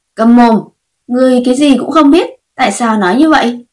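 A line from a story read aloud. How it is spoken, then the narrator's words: Angry loud shout. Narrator (Vietnamese): Lữ Lệ Hoa nghe không nổi nữa, tức giận, lớn tiếng quát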